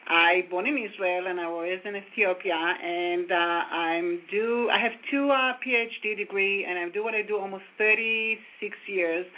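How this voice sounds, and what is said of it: Foreign accent, slow careful speech. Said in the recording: “if you can tell from my accent, I'm definitely not from Brooklyn. So I will try to speak very slow, very clear.”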